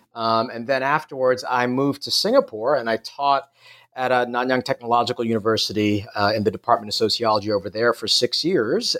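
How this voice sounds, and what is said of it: American New York accent. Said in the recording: “As you can probably tell by my accent, I'm not from Australia. I grew up in New York City”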